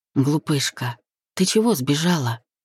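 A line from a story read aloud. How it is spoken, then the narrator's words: Whisper. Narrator (Russian): прошептал Денис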